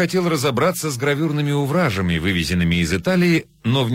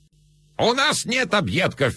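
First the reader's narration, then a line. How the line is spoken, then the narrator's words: Old man's shrill shouting. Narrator (Russian): визгливо кричал старик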